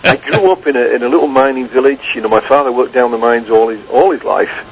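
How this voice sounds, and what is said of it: Northern English accent. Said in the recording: “I'm from the north of England. ... I did notice the accent”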